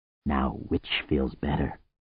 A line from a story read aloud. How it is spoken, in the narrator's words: murmured